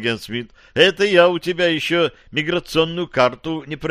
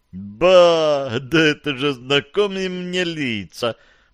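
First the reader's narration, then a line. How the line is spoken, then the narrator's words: Drawled. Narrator (Russian): протянул агент Смит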